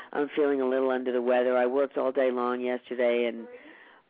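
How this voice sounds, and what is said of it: Sore-throated voice. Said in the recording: “I've got a sore throat.”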